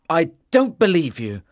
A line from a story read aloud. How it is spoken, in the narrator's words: Arthur said angrily